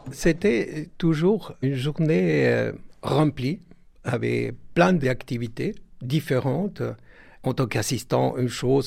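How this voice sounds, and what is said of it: Lilting Argentine accent in French. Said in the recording (French): “vous l'entendrez à son accent chantant, il est argentin.”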